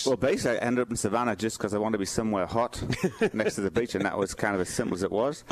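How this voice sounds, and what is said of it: English accent. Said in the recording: “this guy came across the pond, as he would say... he can't get rid of the accent”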